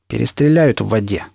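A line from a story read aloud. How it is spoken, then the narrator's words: Plain. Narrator (Russian): сказал Шрам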